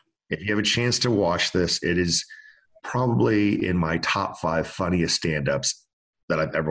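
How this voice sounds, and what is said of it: Usual voice. Nothing is said of it.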